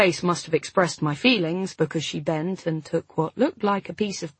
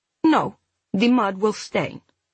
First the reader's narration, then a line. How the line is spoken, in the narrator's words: Ulla said firmly